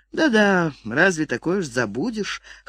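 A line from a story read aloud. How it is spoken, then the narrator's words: Chuckling. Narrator (Russian): хохотнул он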